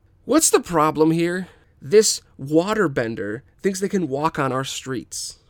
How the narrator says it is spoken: Jan yells

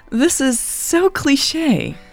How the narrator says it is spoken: Natalie giggled

